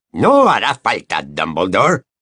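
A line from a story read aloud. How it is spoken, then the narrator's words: Hissing growl. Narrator (Spanish): dijo una voz que era como un gruñido sibilante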